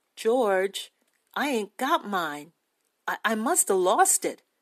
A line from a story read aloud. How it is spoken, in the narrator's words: He said gently